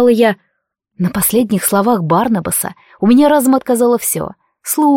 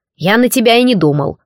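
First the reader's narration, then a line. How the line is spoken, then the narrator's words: Snorting. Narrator (Russian): фыркнул некромант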